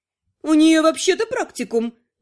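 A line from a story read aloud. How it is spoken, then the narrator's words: Grumbling. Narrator (Russian): проворчала Летиция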